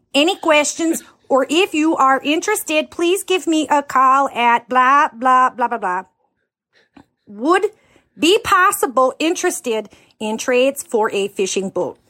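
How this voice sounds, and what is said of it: Heavy, over-the-top accent. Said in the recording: “her accent is so over the top”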